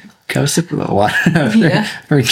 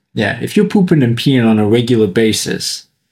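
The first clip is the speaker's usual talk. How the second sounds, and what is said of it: Put-on New York accent. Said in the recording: “What's with the... The accent. ... New York accent.”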